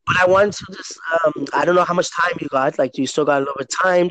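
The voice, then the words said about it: Strained, partly lost voice. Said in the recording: “I lost my voice like a few days ago. It's still getting better right now... I was losing my voice”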